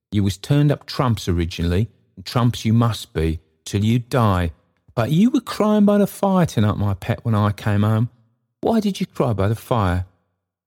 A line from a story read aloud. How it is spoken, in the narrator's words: cried Trotty